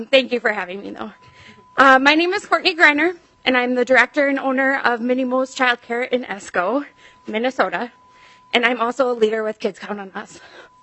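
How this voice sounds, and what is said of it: Out of breath, breathy speech. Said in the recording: “little out of breath ... So if I have to take breaths, that's why.”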